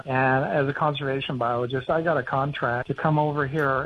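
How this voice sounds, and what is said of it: Australian accent. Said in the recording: “As you can hear from my accent, I'm an American-born Australian”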